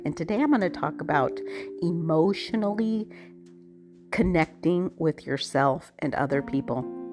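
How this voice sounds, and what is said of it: Unwell, strained-sounding voice. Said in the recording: “apologize for my voice. I am getting over COVID.”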